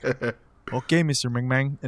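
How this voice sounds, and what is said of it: Put-on accent. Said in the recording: “I'm glad you did that accent”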